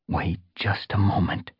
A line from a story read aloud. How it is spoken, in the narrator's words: he murmured